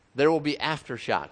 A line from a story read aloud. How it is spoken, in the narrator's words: someone cried out